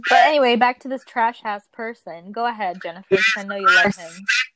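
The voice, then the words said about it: Thick accent. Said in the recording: “you got a thick-ass accent.”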